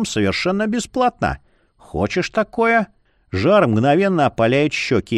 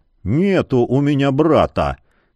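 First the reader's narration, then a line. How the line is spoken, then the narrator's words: Muffled grumbling. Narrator (Russian): Глухо бухтит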